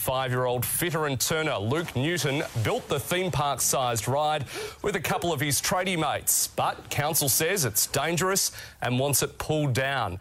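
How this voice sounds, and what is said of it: Imitates a TV newsreader voice. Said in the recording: “just put on your newsreader voice ... that was a very good impression”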